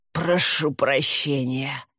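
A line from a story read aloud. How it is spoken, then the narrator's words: Hoarse wheeze. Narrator (Russian): вместо этого прохрипел он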